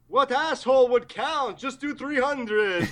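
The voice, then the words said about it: Tom Six impression, Count-like voice. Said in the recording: “Is that your Tom Six impression? ... I think I combined Tom Six and Laser. ... I thought it was the Count from Sesame.”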